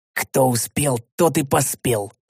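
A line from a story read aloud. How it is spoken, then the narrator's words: Calm hoarse whisper. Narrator (Russian): хрипящим шепотом невозмутимо поведал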